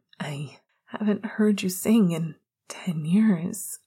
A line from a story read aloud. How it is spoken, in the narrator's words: he whimpered